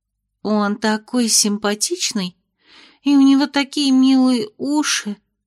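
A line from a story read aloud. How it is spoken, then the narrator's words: Dreamy sigh. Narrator (Russian): вздохнула Эль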